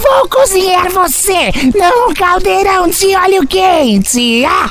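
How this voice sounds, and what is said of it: Witch character voice. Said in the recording (Portuguese): “Faz uma voz de bruxa”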